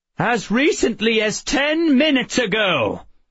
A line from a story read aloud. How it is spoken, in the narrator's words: he said in a high and imperious tone